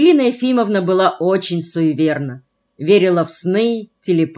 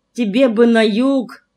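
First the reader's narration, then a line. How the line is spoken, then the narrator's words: Grandmother's sigh. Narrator (Russian): вздохнула бабушка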